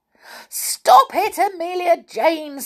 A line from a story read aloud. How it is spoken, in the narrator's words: squealed the engine